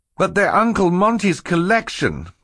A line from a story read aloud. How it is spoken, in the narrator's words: Klaus cried